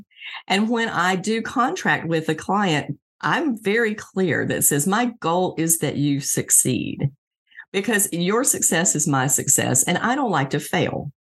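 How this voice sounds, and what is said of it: Southern American accent. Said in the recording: “maybe the Southern accent helped”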